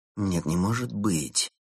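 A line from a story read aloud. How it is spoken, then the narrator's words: Quiet speech. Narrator (Russian): тихо сказал Улис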